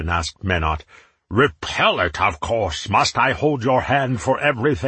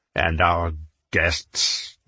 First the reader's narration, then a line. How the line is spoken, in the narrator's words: Jael Finn spat